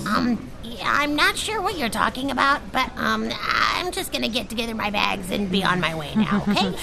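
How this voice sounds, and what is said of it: American accent. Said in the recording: “An American accent.”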